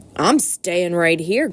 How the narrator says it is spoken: grumbled the rat

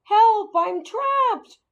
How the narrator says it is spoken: I squeaked, although the bag muffled the sound

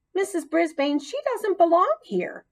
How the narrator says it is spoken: squeaked out loud

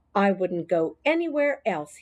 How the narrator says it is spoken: he said

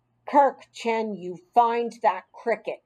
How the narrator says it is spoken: she said in a very stern tone of voice

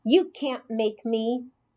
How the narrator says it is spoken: he said firmly

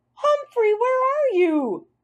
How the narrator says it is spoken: Magic Mitch called out

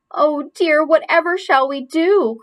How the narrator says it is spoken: cried Aunt Dorothy

